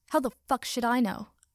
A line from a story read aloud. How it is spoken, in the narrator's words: Katsuki snapped